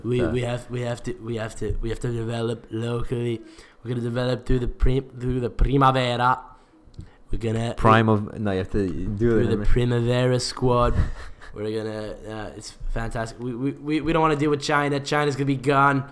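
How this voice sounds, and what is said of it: Donald Trump impression. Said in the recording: “your Trump impersonation.”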